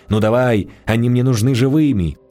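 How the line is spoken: Shocked shout. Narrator (Russian): Дьяков испытал сильнейшее потрясение, прокричал в чащу

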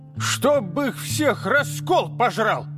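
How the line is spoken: Old woman barking. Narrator (Russian): рявкнула бабка

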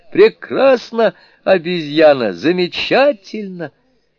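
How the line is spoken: Laughing exclamations amid applause. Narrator (Russian): хохотали громко аплодируя восклицали

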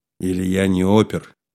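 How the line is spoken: Snorting chuckle. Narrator (Russian): хмыкнул Слава

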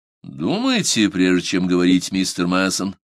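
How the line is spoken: Calm reply. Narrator (Russian): спокойно отозвался Барт

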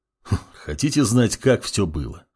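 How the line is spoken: Snorting. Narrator (Russian): хмыкнул темный паладин

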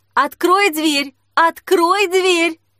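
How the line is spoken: Shouting. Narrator (Russian): закричала Снежка базе

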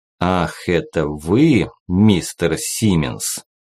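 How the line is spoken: Icy tone. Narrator (Russian): ледяным тоном произнес

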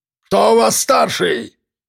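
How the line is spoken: Barking. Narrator (Russian): рявкнул он

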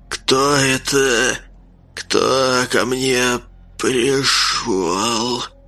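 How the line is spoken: Hoarse, eerie, unhinged voice. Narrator (Russian): Хрипкий, жуткий голос нездорового, неадекватного человека

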